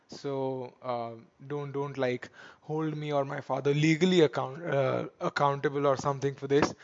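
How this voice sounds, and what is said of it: Softer, sore-throated voice. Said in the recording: “My throat is a bit sore ... my voice might sound a little bit softer than normal”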